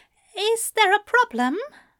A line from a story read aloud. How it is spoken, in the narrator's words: He asked nervously